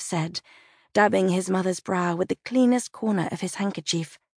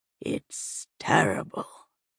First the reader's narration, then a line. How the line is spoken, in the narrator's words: Liliana muttered